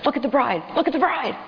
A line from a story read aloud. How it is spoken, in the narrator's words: he's frantically whispering